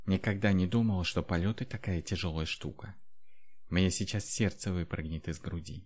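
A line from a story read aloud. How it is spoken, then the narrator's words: Exhausted, panting mutter. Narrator (Russian): дракониха выдохлась и, тяжело дыша, пробормотала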